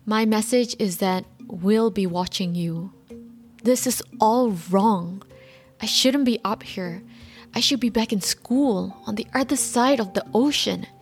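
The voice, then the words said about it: Imitates another person's voice. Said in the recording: “my poor imitation”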